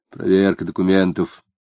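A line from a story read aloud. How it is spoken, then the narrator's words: Polite quiet reply. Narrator (Russian): вежливо и тихо ответил жандарм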